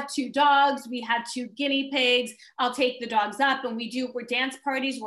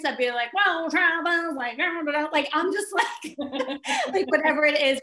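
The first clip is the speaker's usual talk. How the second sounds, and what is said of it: Silly funny voice. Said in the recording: “I make weird sounds ... I make funny voice.”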